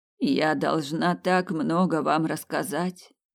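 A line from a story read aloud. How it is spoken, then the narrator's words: Sighing. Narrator (Russian): вздохнула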